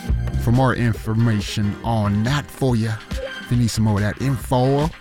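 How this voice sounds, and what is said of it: Put-on southern accent. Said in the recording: “I don't know why I have a southern accent”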